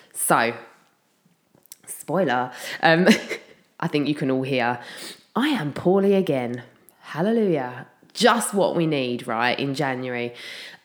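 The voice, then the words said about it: Slightly husky, delicate sick voice. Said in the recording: “my voice is slightly husky. It's also very, very delicate... the longer I talk, the more I cough”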